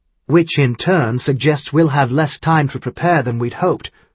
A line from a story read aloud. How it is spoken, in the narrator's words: Caleb added harshly